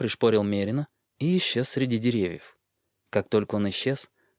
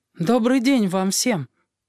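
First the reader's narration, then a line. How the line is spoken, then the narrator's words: Anxious voice. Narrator (Russian): проговорил Бран тревожным голосом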